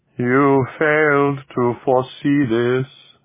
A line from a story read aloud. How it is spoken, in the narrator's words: the alien intoned